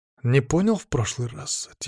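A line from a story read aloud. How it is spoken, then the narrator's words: Quiet, distinct. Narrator (Russian): тихо и отчетливо произнес я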